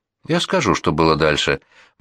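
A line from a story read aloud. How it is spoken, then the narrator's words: Gloomy. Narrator (Russian): мрачно говорит Боб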